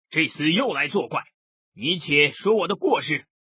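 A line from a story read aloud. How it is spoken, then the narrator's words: Furious bellow. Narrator (Chinese): 宋江大怒，喝道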